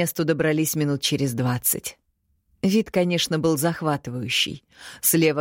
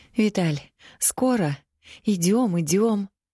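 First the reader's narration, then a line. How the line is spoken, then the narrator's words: Trembling voice. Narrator (Russian): Дрожащим голосом поинтересовалась она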